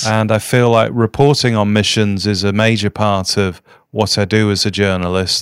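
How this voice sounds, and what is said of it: Noticeable regional accent. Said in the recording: “your accent has betrayed where you are from, what part of the world.”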